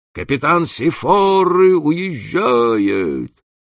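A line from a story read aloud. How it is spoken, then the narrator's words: Shouting. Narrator (Russian): Человек с бакенбардами крикнул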